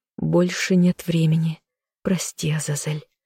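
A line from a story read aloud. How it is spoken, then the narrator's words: Quiet whisper. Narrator (Russian): тихо прошептала она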